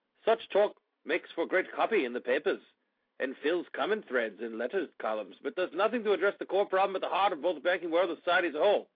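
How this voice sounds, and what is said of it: Put-on British accent. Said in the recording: “I'm reading with a British accent because it's a British article.”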